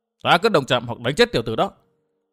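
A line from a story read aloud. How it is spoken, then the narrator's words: Startled, then angry retort. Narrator (Vietnamese): Âm Tiêu quái bà sừng sốt trong thoáng mắt biến thành giận dữ quát trả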